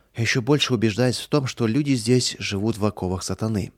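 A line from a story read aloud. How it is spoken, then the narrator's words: Regretful sigh. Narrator (Russian): с сожалением вздохнул Михаил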